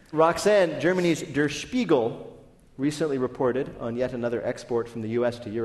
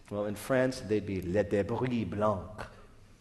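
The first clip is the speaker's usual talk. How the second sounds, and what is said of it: Exaggerated French accent. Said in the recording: “my incredibly accurate accent”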